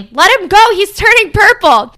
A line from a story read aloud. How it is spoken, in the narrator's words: The spectators start shouting